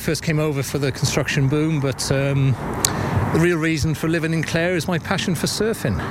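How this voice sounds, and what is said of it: Welsh accent. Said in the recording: “That's not a Corofin accent. ... I'm originally from Wales”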